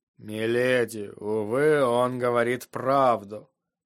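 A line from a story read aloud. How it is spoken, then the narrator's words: Tired remark. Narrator (Russian): Усталым голосом заметил сир Родрик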